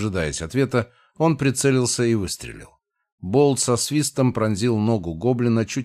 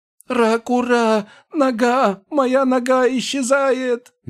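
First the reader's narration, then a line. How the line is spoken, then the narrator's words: Shrieking. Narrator (Russian): визжал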